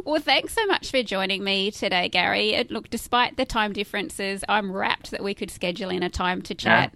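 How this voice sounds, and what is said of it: Australian accent. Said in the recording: “Aussie accent”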